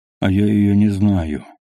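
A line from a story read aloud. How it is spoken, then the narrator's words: Calm reply. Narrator (Russian): спокойно отвечал тот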